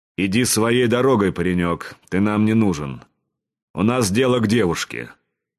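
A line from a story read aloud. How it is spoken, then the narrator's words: Hoarse bass voice. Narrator (Russian): хриплым басом сказал один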